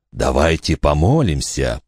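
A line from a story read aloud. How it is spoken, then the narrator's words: Whisper. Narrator (Russian): прошептал Фальконер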